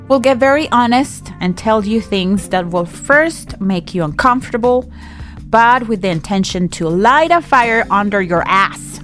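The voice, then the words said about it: Scottish-sounding accent. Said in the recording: “You turned Scottish. You said under your arse. ... with your accent, it sounds like you're saying R, like under your R's.”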